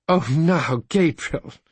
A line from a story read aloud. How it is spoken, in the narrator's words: said Aunt Kate, laughing